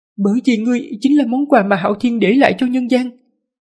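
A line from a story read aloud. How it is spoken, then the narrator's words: Trembling voice. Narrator (Vietnamese): Lục Thường Già giọng run run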